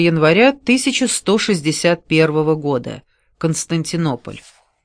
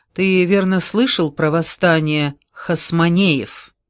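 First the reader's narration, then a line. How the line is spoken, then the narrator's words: Plain. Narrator (Russian): Деводан ответил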